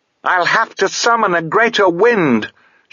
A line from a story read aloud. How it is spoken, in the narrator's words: she yelled at Mogget